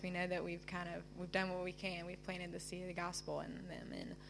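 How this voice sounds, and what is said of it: Southern American accent. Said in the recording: “I love your southern accent.”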